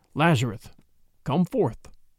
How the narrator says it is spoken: Brandon said softly

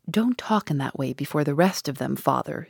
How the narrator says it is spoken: she said

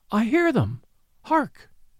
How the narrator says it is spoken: she cried

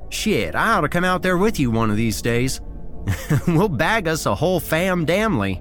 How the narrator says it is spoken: he said with a chuckle

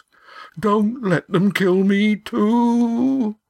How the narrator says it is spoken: whimpered Yan

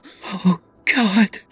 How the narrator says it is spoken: she breathed

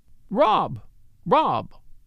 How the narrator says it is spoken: She cried aloud

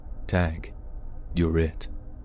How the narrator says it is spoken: The man got down to my face and said in a slow, soft voice through his mask

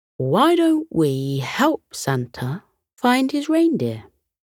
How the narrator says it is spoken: he said

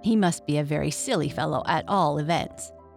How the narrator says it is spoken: said the groundhog

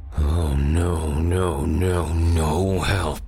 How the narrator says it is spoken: Frost grunted

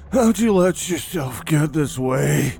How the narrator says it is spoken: He breathed hard, feeling an uncomfortable burn in his lungs

